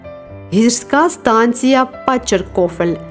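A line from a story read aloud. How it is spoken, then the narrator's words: Plain. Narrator (Ukrainian): відповів Гайні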